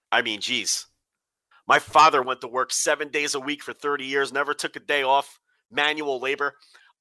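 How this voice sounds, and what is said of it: Nasal, deeper congested voice. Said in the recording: “my voice sounds a little funny ... you're really like nasally and a little deeper”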